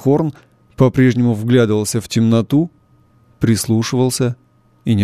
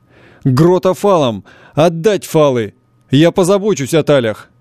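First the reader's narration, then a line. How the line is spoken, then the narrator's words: Skipper's shout. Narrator (Russian): шкипер крикнул помощнику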